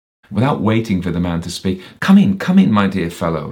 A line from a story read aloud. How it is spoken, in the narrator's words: he exclaimed